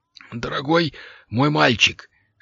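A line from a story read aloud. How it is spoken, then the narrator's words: Strained, forced out. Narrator (Russian): с трудом выдавил из себя волшебник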